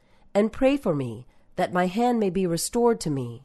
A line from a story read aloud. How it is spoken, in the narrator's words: he pleaded